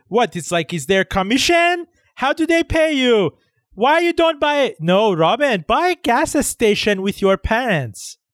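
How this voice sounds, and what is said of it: Imitates Iranian relatives' voices. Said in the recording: “the Iranian relatives ... my impression”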